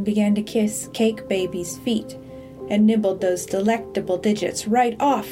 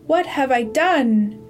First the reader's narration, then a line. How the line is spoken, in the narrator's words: cried